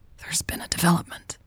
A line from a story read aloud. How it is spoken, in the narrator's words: Carmen whispered urgently